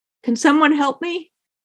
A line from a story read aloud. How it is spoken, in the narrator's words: My voice was thin and I could barely breathe